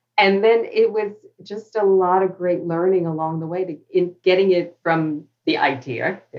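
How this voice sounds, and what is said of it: New York accent. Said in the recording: “there's the New York accent coming out”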